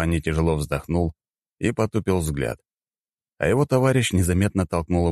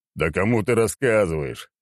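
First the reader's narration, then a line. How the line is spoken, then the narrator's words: Chuckling. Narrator (Russian): хохотнул Черномор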